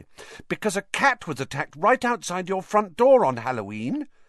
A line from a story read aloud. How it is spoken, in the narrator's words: said Hermione quickly